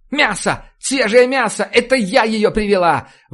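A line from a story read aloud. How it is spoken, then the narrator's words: Sudden scream. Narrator (Russian): Вдруг закричала она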